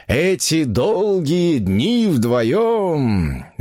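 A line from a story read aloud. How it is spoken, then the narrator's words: Dreamy drawl. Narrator (Russian): мечтательно протянул он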